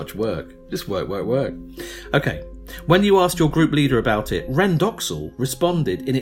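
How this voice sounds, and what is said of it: Usual voice. Nothing is said of it.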